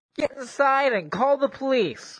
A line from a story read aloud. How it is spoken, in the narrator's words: the kid said in a nasally voice